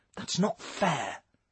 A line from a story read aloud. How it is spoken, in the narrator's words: she replied quietly